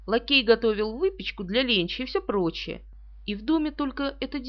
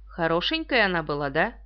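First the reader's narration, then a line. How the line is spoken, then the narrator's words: Gently. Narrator (Russian): Пуаро мягко сказал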